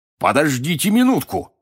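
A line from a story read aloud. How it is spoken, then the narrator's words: Barked shout. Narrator (Russian): гаркнул он в камин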